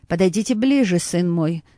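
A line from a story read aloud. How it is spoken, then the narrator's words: Calm fatherly voice. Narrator (Russian): спокойным голосом произнес отец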